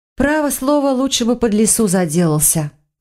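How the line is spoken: Sighing. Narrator (Russian): вздохнула я

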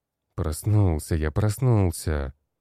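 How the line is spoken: Grumbled. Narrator (Russian): проворчал

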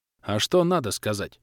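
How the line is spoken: Curious question, satisfied chuckle. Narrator (Russian): поинтересовался и удовлетворенно хмыкнул

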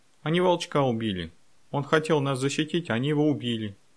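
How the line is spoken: Sobbing speech. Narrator (Russian): он сквозь рыдание сказал

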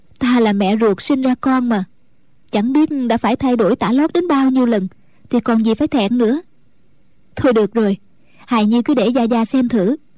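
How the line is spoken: Smiling. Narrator (Vietnamese): Mẫn Nhu mỉm cười nói

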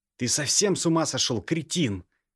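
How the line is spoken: Loud barking shout. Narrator (Russian): Гаркнул Алексей

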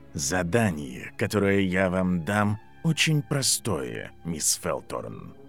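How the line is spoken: Flat colorless voice. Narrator (Russian): произнес профессор бесцветным голосом

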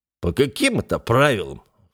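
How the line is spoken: Snorting scoff. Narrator (Russian): фыркнул он

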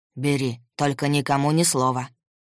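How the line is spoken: Deep bass voice. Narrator (Russian): пробасил

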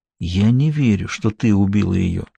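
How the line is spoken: Whisper in ear. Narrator (Russian): Он прошептал ей на ухо

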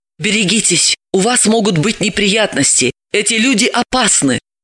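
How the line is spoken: Whispered warning. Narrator (Russian): шепотом предупредила

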